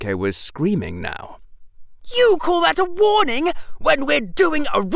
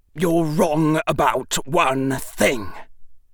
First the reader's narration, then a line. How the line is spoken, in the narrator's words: Draco said, his voice deadly